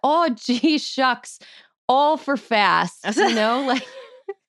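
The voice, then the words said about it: Exaggerated cartoonish Minnesota accent. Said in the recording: “that's like a cartoon. That's like a cartoon version of the accent you grew up with ... rural southern Minnesota”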